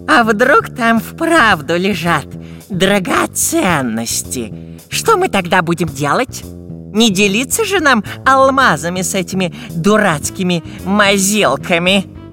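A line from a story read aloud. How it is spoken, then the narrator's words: Furtive hiss. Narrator (Russian): прошипел длинноносый разбойник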